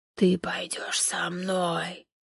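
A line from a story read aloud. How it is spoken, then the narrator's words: Hissing creature. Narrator (Russian): Прошипело существо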